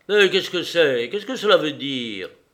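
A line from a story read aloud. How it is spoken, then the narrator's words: Exclaiming. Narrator (French): Il s'exclama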